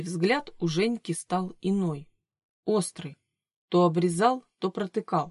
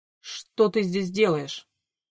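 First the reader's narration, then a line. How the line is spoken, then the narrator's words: Sharp question. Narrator (Russian): резко спросил он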